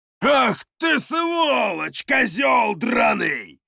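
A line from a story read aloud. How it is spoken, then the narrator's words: Man roaring from outside. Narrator (Russian): взревел снаружи один из горцев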